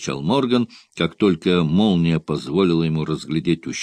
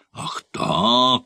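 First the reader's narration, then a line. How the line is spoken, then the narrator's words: Exclamation. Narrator (Russian): воскликнул Морган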